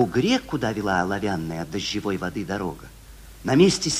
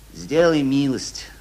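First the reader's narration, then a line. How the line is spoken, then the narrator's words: Plain. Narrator (Russian): сказал Ивлев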